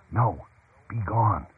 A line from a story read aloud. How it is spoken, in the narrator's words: She whispered Brent's next line